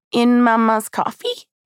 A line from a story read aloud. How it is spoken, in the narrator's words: he asked, sweetly, curiously